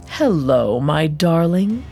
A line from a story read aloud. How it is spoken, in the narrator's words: Asmodeus purred from the shadows